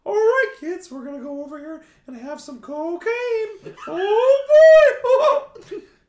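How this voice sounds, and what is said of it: Mickey Mouse voice impression. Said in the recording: “Do an impression ... I love having the voice of Mickey Mouse”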